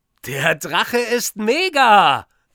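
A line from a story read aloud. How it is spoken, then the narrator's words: Called out. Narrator (German): ruft Linus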